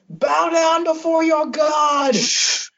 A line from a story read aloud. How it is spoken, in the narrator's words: George is going to yell